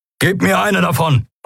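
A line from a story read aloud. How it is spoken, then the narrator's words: Called out. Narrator (German): rief Keru Endriel zu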